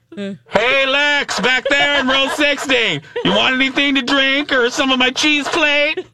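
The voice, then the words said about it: Imitates another person's voice. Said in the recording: “do an imitation of Lex's mom on the plane”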